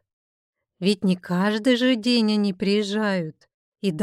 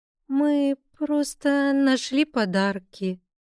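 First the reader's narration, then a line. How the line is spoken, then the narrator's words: Slightly guilty drawl. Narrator (Russian): немного виновато протянул Эрик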